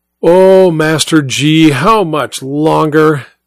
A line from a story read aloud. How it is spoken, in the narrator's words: yells across the room, her mouth half full